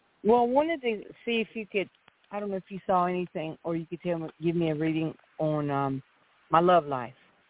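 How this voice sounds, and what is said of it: Atlanta Southern accent. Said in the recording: “I thought that was an Atlanta accent.”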